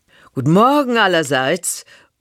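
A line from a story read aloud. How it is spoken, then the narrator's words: Half-shouted greeting. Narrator (German): ruft mehr, als dass sie spricht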